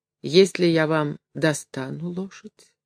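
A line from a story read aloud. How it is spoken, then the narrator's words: Timid question. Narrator (Russian): робко спросил Горбун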